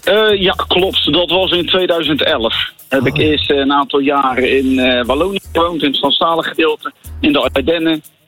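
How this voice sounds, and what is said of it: Rotterdam Dutch accent. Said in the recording (Dutch): “jouw heerlijke Rotterdamse accent”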